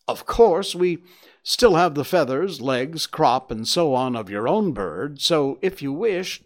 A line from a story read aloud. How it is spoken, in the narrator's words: the man burst into a hearty laugh